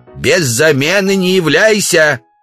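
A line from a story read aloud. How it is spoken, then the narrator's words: Woman shouting from afar. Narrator (Russian): Жена Удалова, Ксения, крикнула им вслед со двора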